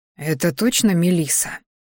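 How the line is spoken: Bewildered whisper. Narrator (Russian): шепоток друга, который пребывал сейчас в полной растерянности

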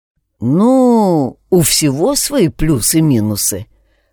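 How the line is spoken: Guilty mumble. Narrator (Russian): промямлил почти виновато

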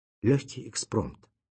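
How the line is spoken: Quiet reply. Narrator (Russian): тихо ответил эксперт

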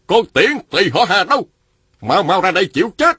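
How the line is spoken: Man shouting. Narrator (Vietnamese): Một nam nhân quát lên

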